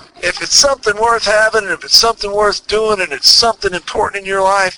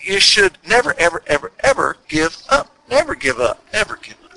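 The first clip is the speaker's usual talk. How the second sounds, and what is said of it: Imitates another person's voice, Texas accent. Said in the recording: “my Winston Churchill imitation with the Texas accent.”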